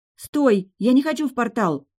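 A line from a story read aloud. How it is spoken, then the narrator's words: Shout. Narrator (Russian): крикнула Кира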